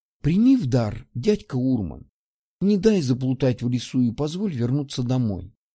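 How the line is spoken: Whisper. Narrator (Russian): прошептала Ульянка

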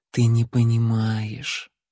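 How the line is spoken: Sad. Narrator (Russian): печально покачала головой Лайла

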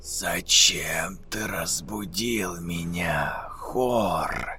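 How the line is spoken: Female whisper. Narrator (Russian): женский шепот

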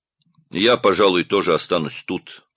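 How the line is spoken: Grumbled. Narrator (Russian): проворчал Одноглазый

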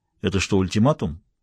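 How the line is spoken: Cold inquiry. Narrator (Russian): холодно осведомился Престон

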